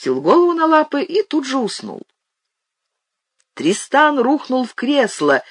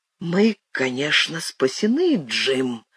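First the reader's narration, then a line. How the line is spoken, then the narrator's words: Whisper. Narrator (Russian): прошептал он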